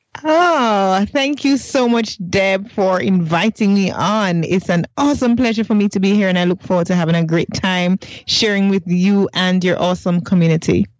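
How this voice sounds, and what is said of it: Jamaican accent. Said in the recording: “lovely Jamaica ... I love your accent”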